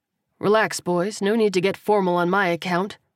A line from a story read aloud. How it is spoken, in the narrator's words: Kersey said with a chuckle